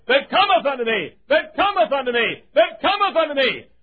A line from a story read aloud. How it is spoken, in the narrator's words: he shouted